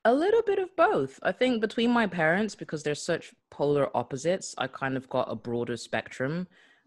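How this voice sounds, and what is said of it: Slight American accent. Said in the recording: “I have a slight American accent”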